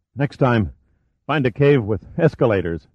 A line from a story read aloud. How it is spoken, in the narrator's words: Giordino panted